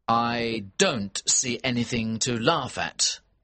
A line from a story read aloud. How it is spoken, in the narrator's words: I said